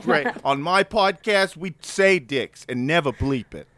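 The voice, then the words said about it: Put-on Boston accent. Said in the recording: “That's my best Boston accent.”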